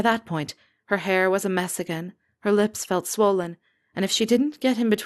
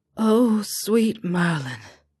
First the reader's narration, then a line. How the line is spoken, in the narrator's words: he sighed